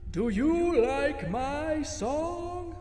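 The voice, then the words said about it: Loud booming character voice. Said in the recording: “I was expecting an old raspy voice, but instead, it was loud and booming, as if thunder could talk.”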